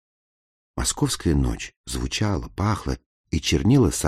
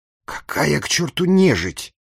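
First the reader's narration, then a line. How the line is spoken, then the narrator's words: Angry self-rebuke. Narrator (Russian): сердито одернул себя губернский секретарь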